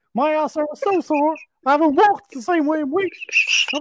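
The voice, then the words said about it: High-pitched cartoon mouse voice. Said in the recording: “you were Mickey Mouse”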